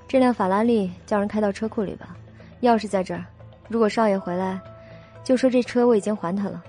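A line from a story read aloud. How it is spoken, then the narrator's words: Calm, indifferent instruction. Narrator (Chinese): 他只淡淡的对郑管家吩咐道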